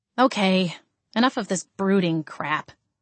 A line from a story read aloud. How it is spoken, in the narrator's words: I grunted